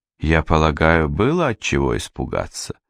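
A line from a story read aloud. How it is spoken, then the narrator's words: Calm elderly woman. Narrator (Russian): сказала старая матушка спокойно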